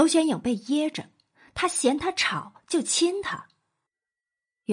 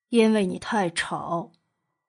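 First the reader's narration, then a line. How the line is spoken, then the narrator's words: Cool, indifferent tone. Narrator (Chinese): 莫景浩淡淡的道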